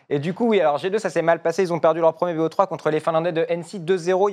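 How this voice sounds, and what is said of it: Slight Belgian French accent. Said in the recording (French): “T'es belge, t'es belge. ... on a un petit accent belge”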